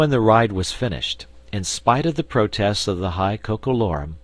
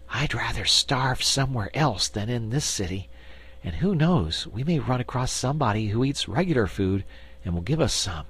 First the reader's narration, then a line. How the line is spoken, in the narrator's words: agreed Dorothy